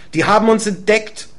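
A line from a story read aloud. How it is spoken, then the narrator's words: Man calling out. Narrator (German): ruft der Mann neben mir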